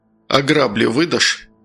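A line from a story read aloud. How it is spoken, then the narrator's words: Calm, surprised. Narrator (Russian): Безмерно удивленный вопросом Дикий также спокойно ответил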